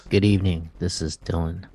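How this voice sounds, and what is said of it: Deep, sultry radio announcer voice. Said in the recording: “radio announcer voice is on ... like a deep, sultry voice”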